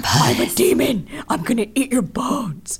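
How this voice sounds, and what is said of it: Demon character voice. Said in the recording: “demon voice ... Oh, demon voice”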